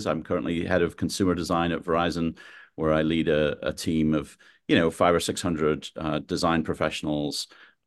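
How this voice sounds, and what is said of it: British accent mixed with American. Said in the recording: “I'm not from the States originally, although my accent is really a little bit messed up now. I'm from the UK, moved to the States 25 years ago”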